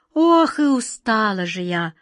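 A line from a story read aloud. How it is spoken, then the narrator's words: Weary sigh. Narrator (Russian): вздохнула ласточка два пятнышка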